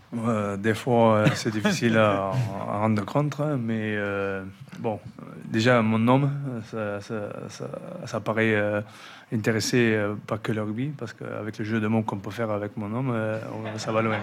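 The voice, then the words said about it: Southwest French accent. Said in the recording (French): “Il a l'accent du sud-ouest.”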